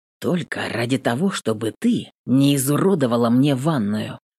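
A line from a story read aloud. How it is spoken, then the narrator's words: Grumbled. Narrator (Russian): пробурчал он, согласившись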